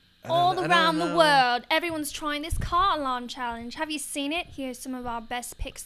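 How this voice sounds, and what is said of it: Put-on British accent. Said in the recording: “Was that a good accent? ... That was a great accent. ... I want to be British so bad.”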